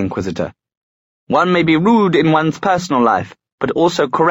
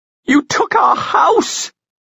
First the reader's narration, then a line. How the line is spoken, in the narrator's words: Tatiana screeched